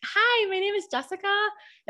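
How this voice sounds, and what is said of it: Sweet customer-service voice. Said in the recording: “you sounded so sweet ... my voice was like deeper ... It's my customer service voice ... It's the inflection of my voice”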